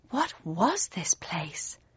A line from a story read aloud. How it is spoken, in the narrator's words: I asked, my voice barely louder than a whisper